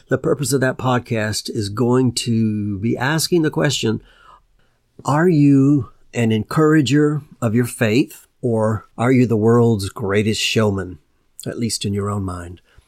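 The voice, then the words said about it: Voice going hoarse, strained. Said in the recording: “losing my voice.”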